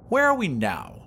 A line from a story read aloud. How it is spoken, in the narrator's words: asked Vashti haughtily